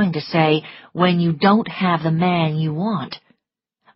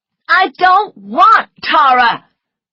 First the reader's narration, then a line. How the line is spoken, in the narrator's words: cried Scarlet angrily